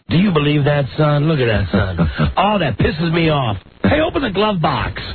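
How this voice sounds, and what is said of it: Imitated southern US accent. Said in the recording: “He's one of those guys with a real southern accent.”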